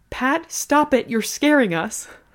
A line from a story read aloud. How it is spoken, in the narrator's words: Gram yelled